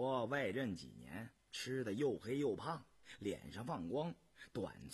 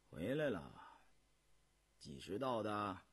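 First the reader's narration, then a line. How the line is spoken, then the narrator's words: Casual, indifferent question. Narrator (Chinese): 胤禛淡淡的问道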